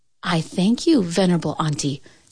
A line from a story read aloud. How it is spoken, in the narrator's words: said the cat